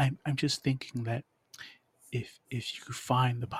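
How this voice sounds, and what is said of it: Usual voice. Nothing is said of it.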